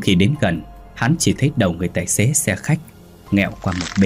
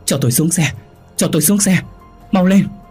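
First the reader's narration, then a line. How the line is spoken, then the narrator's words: Frantic repeated shouting. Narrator (Vietnamese): Hắn vội vàng, miệng liên tục thét lớn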